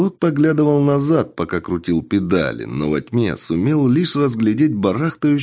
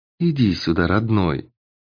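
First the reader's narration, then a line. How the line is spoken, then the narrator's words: Almost tender whisper. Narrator (Russian): прошептала лиса почти ласковым тоном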